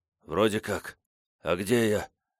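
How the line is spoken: Hoarse unrecognizable croak. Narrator (Russian): прохрипел я, не узнавая собственного голоса

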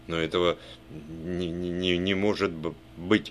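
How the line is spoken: Stammering. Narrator (Russian): произнес он, заикаясь

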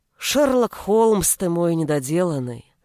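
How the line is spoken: Heavy sigh. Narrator (Russian): Тяжело вздохнул Олег

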